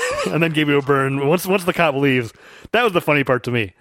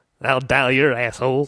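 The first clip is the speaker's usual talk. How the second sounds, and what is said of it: Imitates another person's voice. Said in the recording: “It was a good impression.”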